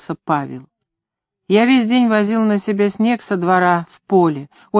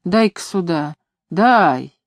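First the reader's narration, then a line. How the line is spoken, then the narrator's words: Hoarse, hurried and clear. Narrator (Russian): хрипел Давидов, торопливо и четко говоря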